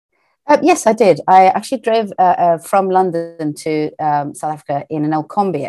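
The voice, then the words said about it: British accent. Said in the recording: “you have this nice uh, British accent”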